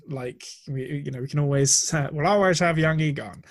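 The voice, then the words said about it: Bad Humphrey Bogart impression. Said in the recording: “That was my Humphrey Bogart in Casablanca impersonation, and it was bad. I've never tried it before.”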